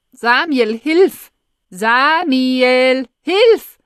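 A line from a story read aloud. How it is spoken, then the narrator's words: Desperate shout over loudspeaker. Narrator (German): schreit es verzweifelt aus dem Lautsprecher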